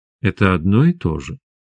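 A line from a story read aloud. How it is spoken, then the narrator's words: Soft. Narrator (Russian): мягко сказала Света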